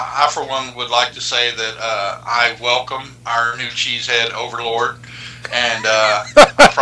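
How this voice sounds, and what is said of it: Usual voice. Nothing is said of it.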